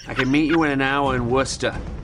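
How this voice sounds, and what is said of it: Exaggerated Boston accent. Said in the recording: “the Seth Meyers video Boston Accent ... it's a movie called Boston Accent.”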